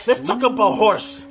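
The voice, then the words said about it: Yelling loudly. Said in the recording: “I just told you not to yell in it... I'm sorry for yelling”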